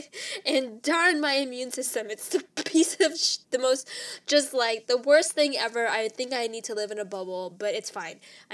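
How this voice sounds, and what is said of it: Nasal, congested voice from a cold. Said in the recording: “I am battling yet again another cold, and so I am sounding a little nasally ... if I sound like a little duck”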